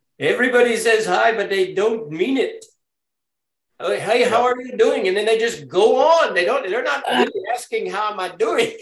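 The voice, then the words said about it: Put-on Indian accent. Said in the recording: “I hate to do it in the Indian accent, but I almost have to.”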